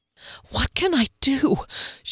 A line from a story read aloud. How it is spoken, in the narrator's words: she panted